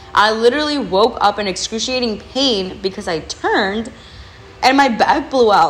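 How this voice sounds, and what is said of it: Voice cracks. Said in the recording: “my voice cracked.”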